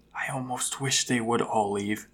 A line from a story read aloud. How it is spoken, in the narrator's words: the girl whispers